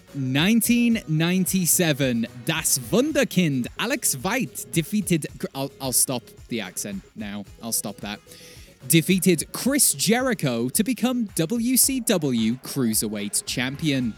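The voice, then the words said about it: Put-on accent, badly done. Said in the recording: “can I record that again without doing the accent? ... That's horrible.”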